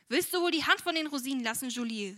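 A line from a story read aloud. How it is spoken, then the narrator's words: Called out. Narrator (German): rief sie dann dem eben eingetretenen Mägdlein zu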